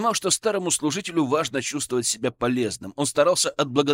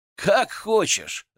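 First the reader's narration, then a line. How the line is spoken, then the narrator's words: Laughing. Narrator (Russian): рассмеялся я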